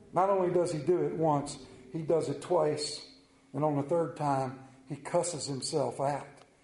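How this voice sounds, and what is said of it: Central Maryland accent. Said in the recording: “I have an accent. I don't think I do, but I do have an accent. I have the Central Maryland accent. ... "You from North Carolina?"”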